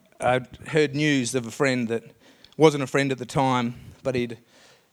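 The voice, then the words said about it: Emotional voice. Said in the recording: “I don't know why I'm getting emotional about it, but it's an emotional story.”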